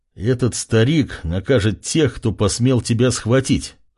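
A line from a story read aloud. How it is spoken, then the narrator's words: Smirking grunt. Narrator (Russian): хмыкнул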